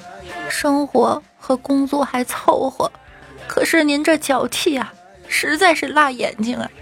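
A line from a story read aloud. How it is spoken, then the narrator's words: Choked, sobbing. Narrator (Chinese): 妹子哽咽的说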